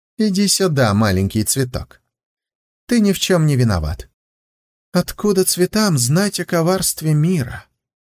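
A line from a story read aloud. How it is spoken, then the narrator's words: Soft and sad. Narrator (Russian): проклятый оборотень говорил так мягко, так печально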